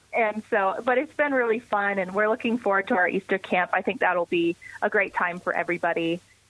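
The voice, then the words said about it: Noticeable foreign accent. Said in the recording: “they hear my accent and they just kind of look a little starstruck”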